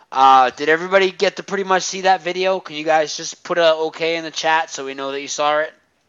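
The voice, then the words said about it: Boston accent. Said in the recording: “Official masshole accent ... my accent”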